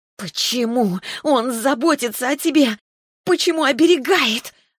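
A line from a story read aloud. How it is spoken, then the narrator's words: Furious hiss, female dragon. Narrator (Russian): разъяренно прошипела драконица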